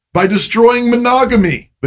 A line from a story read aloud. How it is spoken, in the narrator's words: they shouted